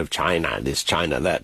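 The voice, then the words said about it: Imitates another person's voice. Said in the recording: “my bad impersonation of his, the way he pronounces the name”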